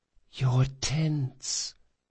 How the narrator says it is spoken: whispered Felice

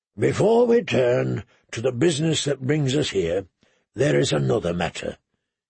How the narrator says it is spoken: he said solemnly

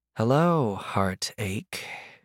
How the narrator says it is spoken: she sighed

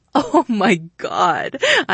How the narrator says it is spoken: I laughed

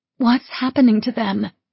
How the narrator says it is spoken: Erin asked, her voice tremulous

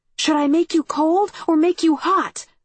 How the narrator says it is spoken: I shouted

